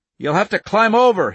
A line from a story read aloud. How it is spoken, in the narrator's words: he shouted